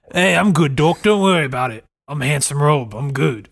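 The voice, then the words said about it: Jason Statham impression. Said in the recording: “You have a pretty good Jason Statham impression”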